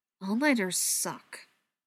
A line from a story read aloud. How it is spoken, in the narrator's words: Spencer mumbled